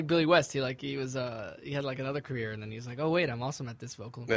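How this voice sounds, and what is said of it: Usual voice. Nothing is said of it.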